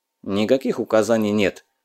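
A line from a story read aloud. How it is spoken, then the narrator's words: Sullen grumble. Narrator (Russian): хмуро буркнул Батыр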